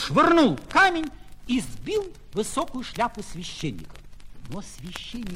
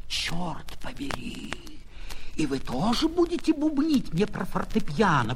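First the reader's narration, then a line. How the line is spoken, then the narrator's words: Hoarse wheeze. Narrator (Russian): прохрипел адвокат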